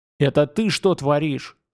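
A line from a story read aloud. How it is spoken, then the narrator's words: Angry, through teeth. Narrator (Russian): зло процедил Вимовей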